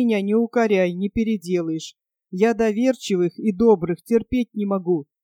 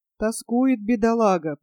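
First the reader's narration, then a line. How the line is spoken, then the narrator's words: Understanding sigh, older man. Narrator (Russian): понимающе вздохнул пожилой боец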